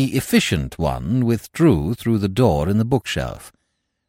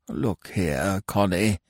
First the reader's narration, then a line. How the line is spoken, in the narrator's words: he grumbled feebly